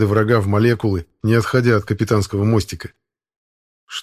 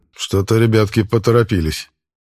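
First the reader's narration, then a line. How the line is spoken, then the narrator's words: Wry snort. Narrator (Russian): хмыкнул Максимилиан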